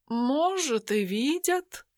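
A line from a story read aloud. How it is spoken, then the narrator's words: Philosophical tone. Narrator (Russian): Философским тоном произнес он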